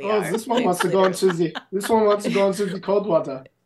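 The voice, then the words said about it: Put-on Hungarian or German accent. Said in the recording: “I don't know if that's a Hungarian accent, but might have been German ... Could have been German.”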